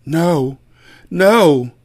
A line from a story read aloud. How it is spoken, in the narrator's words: she groaned while still asleep